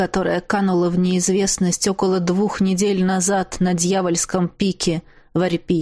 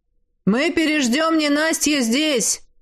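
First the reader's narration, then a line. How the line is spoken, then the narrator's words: Shouting. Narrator (Russian): крикнул мне возница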